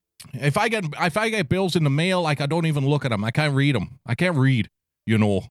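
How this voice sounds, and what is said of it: Attempted Maine accent sounding Canadian. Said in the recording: “I can't do a Maine accent. Maine's a tough one for me. Because if I try to do a Maine accent, it ends up sounding Canadian. ... that sounds like retarded Canadian”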